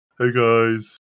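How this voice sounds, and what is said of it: Character voice, very deep. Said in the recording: “your voice, it got so deep.”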